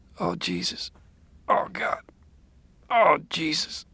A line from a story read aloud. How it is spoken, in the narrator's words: he said weakly